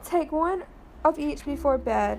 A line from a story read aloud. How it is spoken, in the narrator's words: said Dr